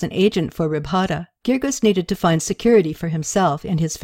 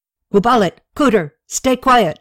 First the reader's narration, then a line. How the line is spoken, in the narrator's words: Aziru yelled